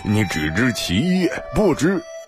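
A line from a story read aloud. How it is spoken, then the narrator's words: Laughing. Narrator (Chinese): 李萌笑道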